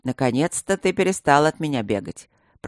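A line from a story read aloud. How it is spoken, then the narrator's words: Grumbling mutter. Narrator (Russian): пробурчал широкий и снова обросший бородой Блакори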